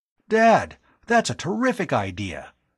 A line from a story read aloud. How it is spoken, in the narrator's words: he exclaimed